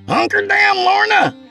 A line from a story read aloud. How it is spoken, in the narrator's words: Craig hollered from the sheltering trees